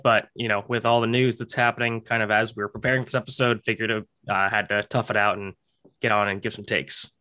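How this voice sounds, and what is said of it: Voice not fully well. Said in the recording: “As you can tell, my voice is not 100% yet”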